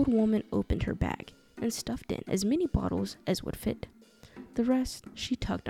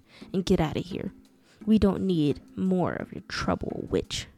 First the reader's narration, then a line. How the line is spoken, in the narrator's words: he spat